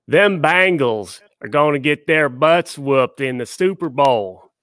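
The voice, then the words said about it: Imitated Kentucky-style regional accent. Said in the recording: “I'm allowed to say that accent because I used to talk like that ... I was about to say they must have thought you were from uh, Kentucky”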